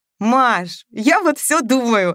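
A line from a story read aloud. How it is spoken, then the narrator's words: Joyful shouting. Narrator (Russian): радостно кричала она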